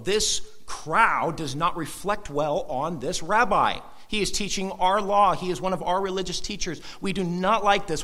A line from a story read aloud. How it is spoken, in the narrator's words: These religious leaders grumble